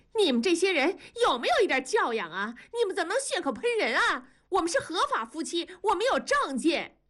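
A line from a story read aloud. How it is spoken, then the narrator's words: Furious shout. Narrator (Chinese): 文丽被推了一个踉跄，大怒着转身喊道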